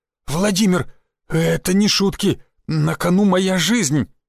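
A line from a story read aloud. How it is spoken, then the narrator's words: Strained, forced out. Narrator (Russian): выдавил мануфактурщик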